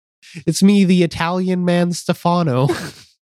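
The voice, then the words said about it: Put-on Italian accent. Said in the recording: “This accent is Italian.”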